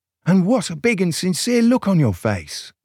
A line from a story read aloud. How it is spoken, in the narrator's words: gasped Soberina